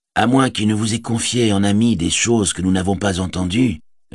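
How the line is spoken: Plain. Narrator (French): répondit Éomer

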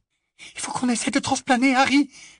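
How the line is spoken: Whisper. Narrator (French): chuchota Hermione

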